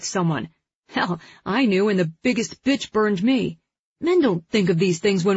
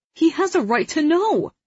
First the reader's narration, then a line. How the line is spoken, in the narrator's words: Liam pleads